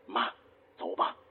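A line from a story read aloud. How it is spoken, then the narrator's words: Quietly. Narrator (Chinese): 张清照小声说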